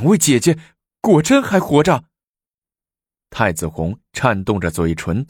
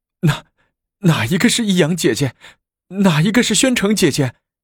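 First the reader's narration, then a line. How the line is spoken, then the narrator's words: Trembling voice. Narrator (Chinese): 颤声的说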